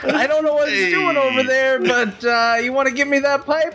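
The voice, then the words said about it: Put-on New York accent. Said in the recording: “New York accent.”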